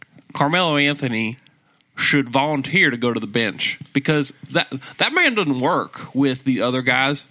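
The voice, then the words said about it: Put-on Southern US accent. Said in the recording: “Throw a Southern accent. Throw a Southern accent on there.”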